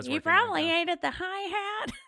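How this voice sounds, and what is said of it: Imitates another person's voice. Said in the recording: “my Mike King impression”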